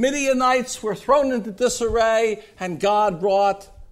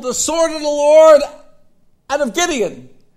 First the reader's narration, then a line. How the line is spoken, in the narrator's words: Gideon's men they yelled